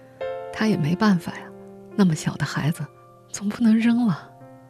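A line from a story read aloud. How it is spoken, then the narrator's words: Sighing. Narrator (Chinese): 张桂珍叹了口气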